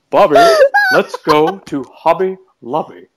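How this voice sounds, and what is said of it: Cartoon character impression voice. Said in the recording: “my Hank Hill impression”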